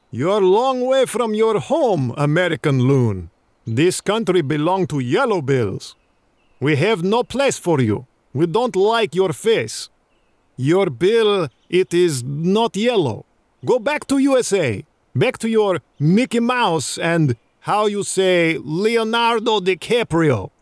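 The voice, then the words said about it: Put-on Russian accent. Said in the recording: “that, of course, was a flawless Russian accent.”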